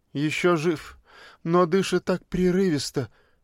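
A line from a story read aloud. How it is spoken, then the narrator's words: Maid sighing. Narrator (Russian): вздохнула служанка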